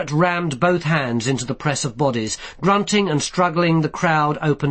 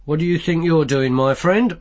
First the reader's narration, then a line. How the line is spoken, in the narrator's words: said Carrot calmly